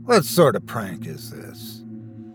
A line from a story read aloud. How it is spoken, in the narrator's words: muttering